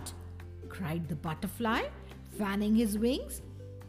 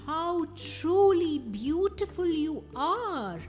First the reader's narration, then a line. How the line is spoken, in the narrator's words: cried